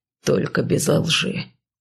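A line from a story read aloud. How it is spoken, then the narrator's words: Somewhat rude hiss. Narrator (Russian): немного грубо шикнул он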